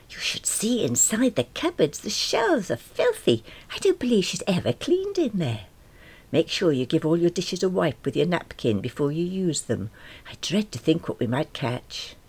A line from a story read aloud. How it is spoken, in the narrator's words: I heard her whisper to Jeff